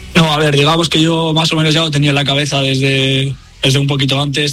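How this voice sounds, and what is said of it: Biscayan Spanish accent. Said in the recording (Spanish): “se te nota en el acento, eres tan vizcaíno”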